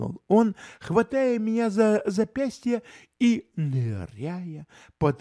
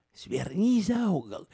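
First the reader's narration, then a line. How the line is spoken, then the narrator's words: Whispered. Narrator (Russian): шепнул Холмс извозчику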